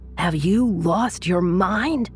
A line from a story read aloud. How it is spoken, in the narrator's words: His friend screamed at him